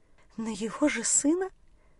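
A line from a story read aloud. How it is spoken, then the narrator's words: Frightened disbelieving whisper. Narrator (Russian): с испугом и недоверием прошептала женщина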